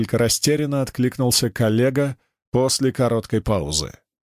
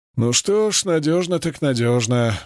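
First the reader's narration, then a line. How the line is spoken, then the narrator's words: Old man sighing. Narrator (Russian): вздохнул дед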